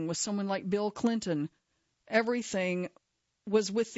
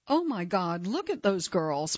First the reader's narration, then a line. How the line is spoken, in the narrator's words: Maxwell exclaimed